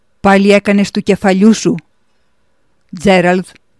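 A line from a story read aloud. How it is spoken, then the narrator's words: Eerie roaring voice. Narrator (Greek): βρυχήθηκε ο μεγάλος φρουρός με την απόκοσμη φωνή του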